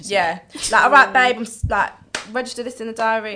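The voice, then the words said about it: Briefly put-on accent. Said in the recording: “I don't know why I did it with that accent”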